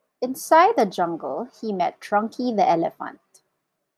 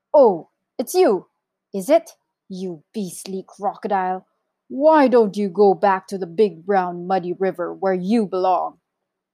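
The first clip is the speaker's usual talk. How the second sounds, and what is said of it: Big deep character voice. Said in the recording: “in his big, deep voice.”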